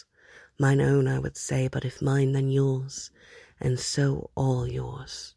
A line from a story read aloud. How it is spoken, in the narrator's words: Hob murmured between those kisses